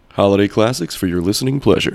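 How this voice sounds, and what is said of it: Announcer-style radio voice. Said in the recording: “Great radio voice there.”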